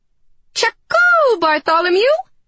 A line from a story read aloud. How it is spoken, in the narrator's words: I screeched